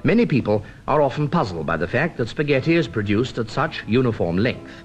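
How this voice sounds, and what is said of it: Traditional British accent. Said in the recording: “a pure traditional British accent”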